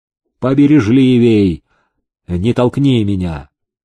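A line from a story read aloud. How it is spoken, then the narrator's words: Grumbling. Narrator (Russian): князь заворчал на селезня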